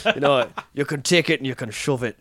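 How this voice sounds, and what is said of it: Deliberately bad Irish accent. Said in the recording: “a terrible Irish accent”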